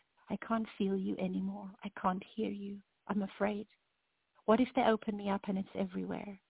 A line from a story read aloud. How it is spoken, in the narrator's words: whispered